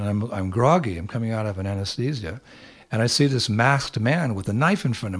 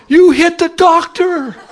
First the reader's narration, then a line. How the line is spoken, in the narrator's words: She was just screaming at me